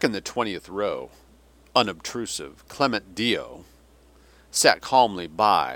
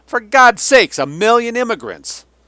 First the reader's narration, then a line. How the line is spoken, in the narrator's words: Mockefeller shouted over the rising commotion